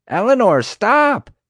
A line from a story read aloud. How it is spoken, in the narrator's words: Bonnie shouted, but her words were drowned out by the ruckus the elephants were making